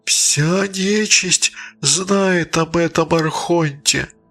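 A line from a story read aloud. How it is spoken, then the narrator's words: Moaning. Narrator (Russian): простонала мать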